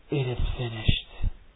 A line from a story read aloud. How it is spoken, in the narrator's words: his sixth words, possibly little more than a tortured whisper